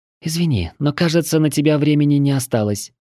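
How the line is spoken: Feigned sigh, young woman. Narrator (Russian): наигранно вздохнула девушка

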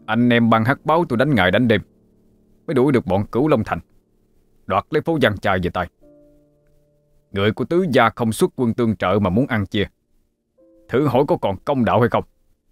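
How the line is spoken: Angry speech. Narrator (Vietnamese): Báo ca đứng phắt dậy, tức giận nói

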